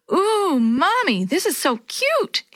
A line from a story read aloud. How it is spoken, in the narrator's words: exclaimed Yo-Yo